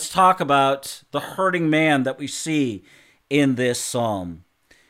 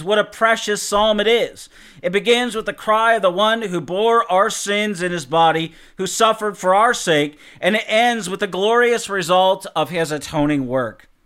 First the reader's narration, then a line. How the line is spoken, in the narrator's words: Arno Gaberlin exclaims